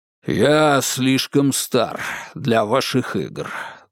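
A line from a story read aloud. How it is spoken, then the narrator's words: Sighing. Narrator (Russian): вздохнул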